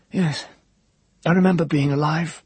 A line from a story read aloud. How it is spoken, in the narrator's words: said the man in a soft, hoarse voice